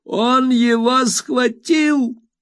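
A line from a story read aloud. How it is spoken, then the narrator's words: Shouted. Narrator (Russian): закричала мисс Мерстон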